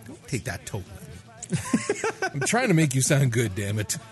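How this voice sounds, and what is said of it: Stern scolding dad voice. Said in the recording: “your dad voiced me ... That was a dad voice? ... Totally dad voiced me ... There was a bit of a dad voice”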